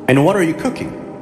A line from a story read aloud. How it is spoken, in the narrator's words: asked Umar